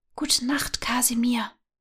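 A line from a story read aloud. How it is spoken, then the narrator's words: Whisper. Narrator (German): flüsterte Nala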